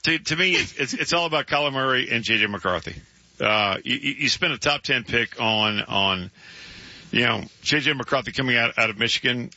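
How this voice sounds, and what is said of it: Strained, fading voice. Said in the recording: “I'm losing my voice. ... your voice is struggling a little bit.”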